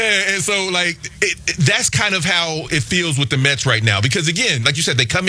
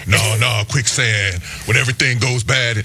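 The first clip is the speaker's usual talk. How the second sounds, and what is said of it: Imitates another person's voice. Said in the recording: “my Keanu Reeves impression”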